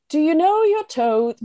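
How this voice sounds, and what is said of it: Poor put-on British accent. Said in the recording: “I can do a British accent ... it's still terrible”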